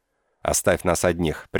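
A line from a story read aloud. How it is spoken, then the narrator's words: Sharp command. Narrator (Russian): приказала резко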